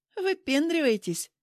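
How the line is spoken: Mocking question. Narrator (Russian): насмешливо спросила Нина

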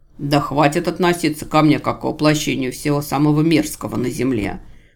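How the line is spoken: Angry snort. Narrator (Russian): Бог-отступник рассерженно фыркнул

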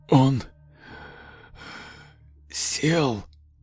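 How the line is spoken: Wheezing whisper. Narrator (Russian): Шепот выходил из легких со свистом

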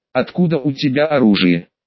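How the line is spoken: Plain question. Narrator (Russian): спросила Анна

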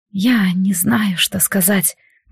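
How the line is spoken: Numb-lipped whisper. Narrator (Russian): прошептала она стынущими, как на холоде, губами

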